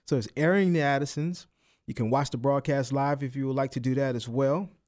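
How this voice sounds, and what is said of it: New Orleans accent. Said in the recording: “my little accent, my New Orleans accent, people don't understand what I'm saying”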